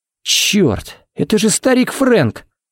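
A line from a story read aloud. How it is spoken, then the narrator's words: Breathless exhale. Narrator (Russian): Выдохнул Харри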